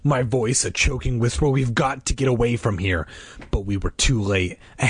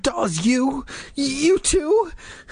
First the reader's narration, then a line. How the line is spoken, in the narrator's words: I cried, so disappointed, so confused, so scared